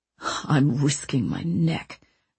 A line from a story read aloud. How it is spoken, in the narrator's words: Mancini grumbled